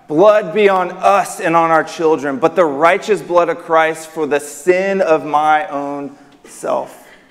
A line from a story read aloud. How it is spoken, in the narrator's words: shout out